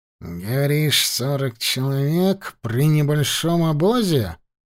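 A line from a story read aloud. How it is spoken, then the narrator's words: Drawn-out drawl. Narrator (Russian): протянул Ахмед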